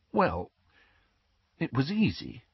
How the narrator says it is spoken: said Hermione in a small voice

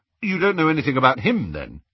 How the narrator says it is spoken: he said hastily, trying to sound robustly sane

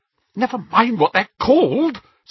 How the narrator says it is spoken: said Hermione a little hysterically

